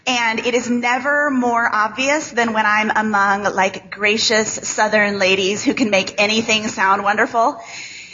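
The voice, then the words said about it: Nasal Midwestern American accent. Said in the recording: “I have the most grating, terrible, nasal Midwest accent.”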